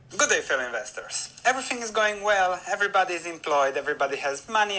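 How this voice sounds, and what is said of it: Man with a noticeable accent. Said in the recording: “the guy has a really cool accent ... I told you he had a cool accent.”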